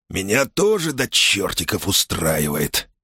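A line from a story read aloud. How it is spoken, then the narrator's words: Hissed. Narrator (Russian): прошипел он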